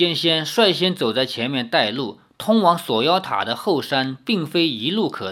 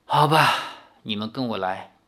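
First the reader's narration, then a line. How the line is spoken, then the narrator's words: Long sigh, resigned. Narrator (Chinese): 九剑仙见林月如也劝不了李逍遥，随即长叹一声，说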